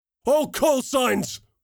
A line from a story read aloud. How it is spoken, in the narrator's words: screamed over the net